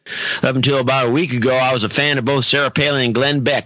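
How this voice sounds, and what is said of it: Put-on Texas accent. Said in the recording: “Don't do the Texas accent.”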